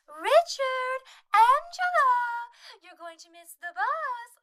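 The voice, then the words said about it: Sing-song voice imitating a woman. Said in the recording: “She does a sing-song voice when she's speaking to anyone ... That was a good impression.”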